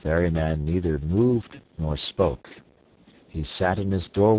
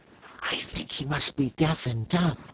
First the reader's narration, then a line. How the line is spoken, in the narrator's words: Cake whispered to her companion